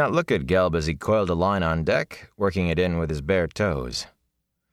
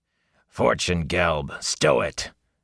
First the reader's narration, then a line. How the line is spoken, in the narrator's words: growled a man with his hair in a pigtail and a small blue star tattooed on his cheek